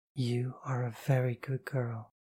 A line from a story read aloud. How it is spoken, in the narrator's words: whisper